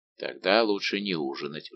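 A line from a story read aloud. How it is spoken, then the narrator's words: Sighing. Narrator (Russian): вздохнул Портос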